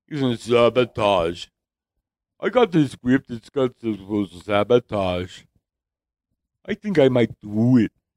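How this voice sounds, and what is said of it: Imitates another person's voice. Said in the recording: “I never knew I could do a Schwarzenegger before... Got a Schwarzenegger impersonation for you.”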